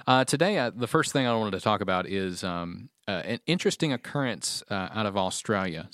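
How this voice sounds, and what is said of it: Australian accent. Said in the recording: “did you actually say that with an Australian accent?”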